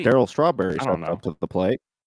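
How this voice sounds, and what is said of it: Baseball announcer voice. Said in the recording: “I love baseball announcer voice”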